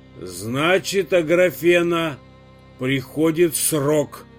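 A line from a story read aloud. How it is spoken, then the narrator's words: Hoarse guttural voice. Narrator (Russian): Из груди Матрёны вырвался хрипловатый утробный голос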